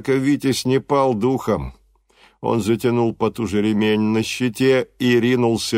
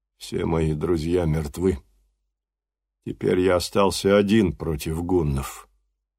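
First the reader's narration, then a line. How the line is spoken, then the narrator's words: Sad. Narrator (Russian): бесстрашный Данквард печально произнес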